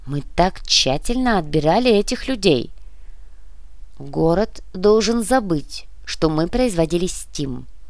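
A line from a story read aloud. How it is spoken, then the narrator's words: Clipped, emphatic speech. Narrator (Russian): отчеканил Красаулос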